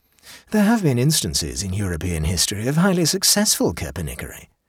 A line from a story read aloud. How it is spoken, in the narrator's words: said the Duke dreamily